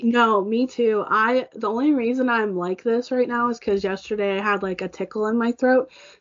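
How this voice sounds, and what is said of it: Hoarse voice. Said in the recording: “I kept coughing and that made my voice hoarse today”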